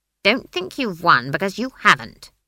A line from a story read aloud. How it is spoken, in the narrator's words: she snapped